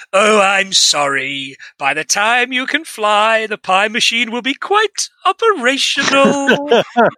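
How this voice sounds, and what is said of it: Emperor Palpatine character voice. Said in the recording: “in an Emperor Palpatine voice”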